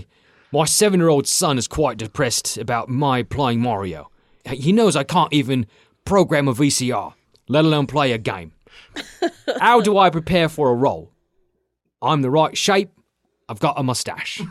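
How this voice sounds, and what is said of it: Cockney accent. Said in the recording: “he has Cockney accent ... Cockney”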